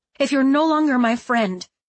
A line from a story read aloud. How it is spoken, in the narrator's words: she gasped out